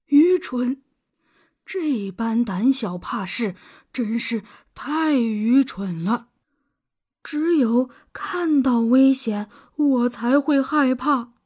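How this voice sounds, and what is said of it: Quiet muttering old frog voice. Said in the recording (Chinese): “青蛙爷爷小声地嘟囔着”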